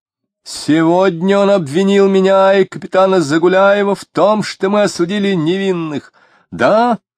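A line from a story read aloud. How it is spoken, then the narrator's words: Shouted. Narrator (Russian): крикнул Тагильский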